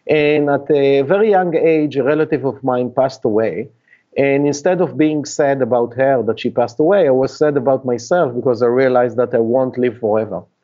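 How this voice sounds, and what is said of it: Israeli-accented non-native English. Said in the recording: “you can hear from my accent that I'm not a Native American, and I actually was born and raised in Israel”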